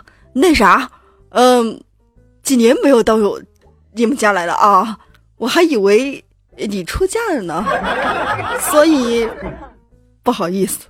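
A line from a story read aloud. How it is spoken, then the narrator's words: Awkward laugh. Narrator (Chinese): 李叔叔当时尴尬的笑了一笑，说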